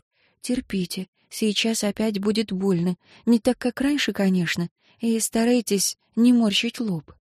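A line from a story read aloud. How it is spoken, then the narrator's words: Whispering. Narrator (Russian): прошептав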